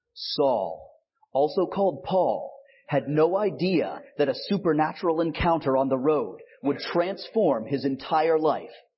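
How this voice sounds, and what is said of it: Dramatic movie trailer narrator voice. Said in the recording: “my best trailer voice”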